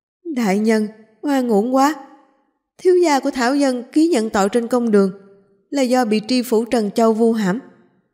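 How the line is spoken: Crying out, weeping. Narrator (Vietnamese): Trương Phúc Tùng khóc lóc kêu lên

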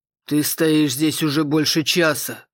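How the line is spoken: Father's grumble. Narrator (Russian): проворчал отец

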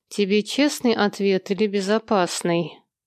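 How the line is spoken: Through clenched teeth. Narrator (Russian): Процедила сквозь стиснутые зубы Ева

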